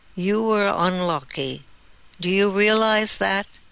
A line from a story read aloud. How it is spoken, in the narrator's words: sighed